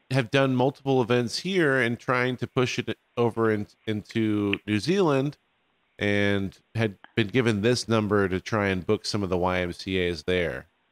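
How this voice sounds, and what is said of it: American accent. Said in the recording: “We are from America ... I can understand the accent.”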